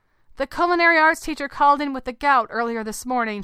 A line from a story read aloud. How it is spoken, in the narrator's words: she shouted